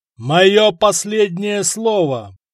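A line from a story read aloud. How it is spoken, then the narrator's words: Shouted defiantly. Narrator (Russian): прокричал, выйдя в одиночку против армии саксов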